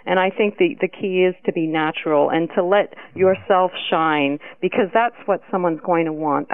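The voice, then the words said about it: Speaks with a noticeable accent. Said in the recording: “I really, really love your accent. ... accent. ... I think it's absolutely marvelous.”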